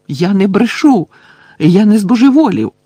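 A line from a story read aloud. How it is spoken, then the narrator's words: Shouted. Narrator (Ukrainian): крикнув Гаррі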